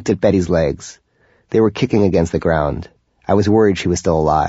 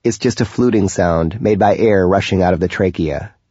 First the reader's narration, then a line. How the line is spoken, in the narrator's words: he explained, always coldly rational